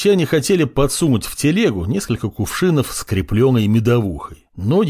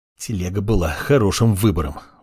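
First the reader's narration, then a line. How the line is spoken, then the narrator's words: Grumbled. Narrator (Russian): буркнул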